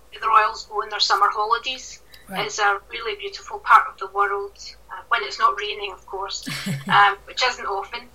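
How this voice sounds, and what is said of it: Scottish accent. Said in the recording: “as we can hear from your lovely accent, you are Scottish”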